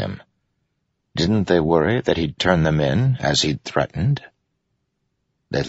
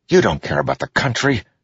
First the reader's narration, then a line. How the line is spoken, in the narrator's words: Kaladin snapped